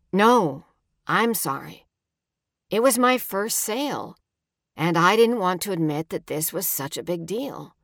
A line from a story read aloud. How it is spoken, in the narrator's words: he says